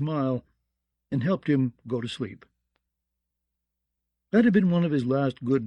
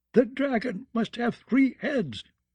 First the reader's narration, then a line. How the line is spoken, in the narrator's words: wailed